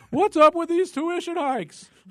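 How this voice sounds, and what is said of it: Jerry Seinfeld impression. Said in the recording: “Jerry Seinfeld impersonation”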